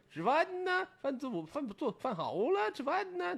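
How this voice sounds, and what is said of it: Put-on Jinzhou northern dialect accent. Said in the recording (Chinese): “锦州话 ... 这种说话呀 ... 就这种口音”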